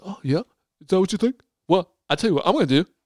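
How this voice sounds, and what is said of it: Put-on London accent. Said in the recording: “This is my London accent.”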